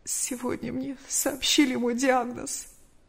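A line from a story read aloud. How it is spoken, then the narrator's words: Trembling reply. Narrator (Russian): Мария Ивановна дрожащим голосом ответила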